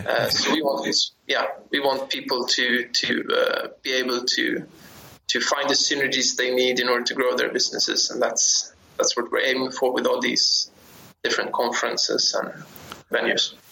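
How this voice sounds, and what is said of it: Scandinavian or Baltic accent. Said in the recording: “I'm guessing from your accent, you're Scandinavian, Baltic-ish?”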